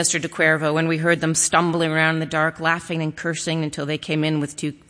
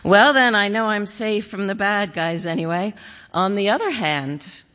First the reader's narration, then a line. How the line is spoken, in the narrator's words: my mother laughed